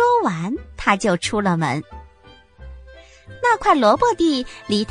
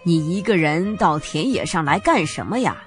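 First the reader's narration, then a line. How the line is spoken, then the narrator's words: Forced reluctant smile. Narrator (Chinese): 兔爸爸不情愿的挤出一个笑容说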